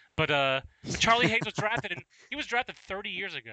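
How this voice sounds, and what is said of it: Usual voice. Nothing is said of it.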